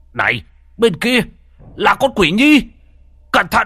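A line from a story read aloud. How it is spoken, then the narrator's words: Alarmed loud shout. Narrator (Vietnamese): Bất giác trông thấy nguy hiểm, ông hét lớn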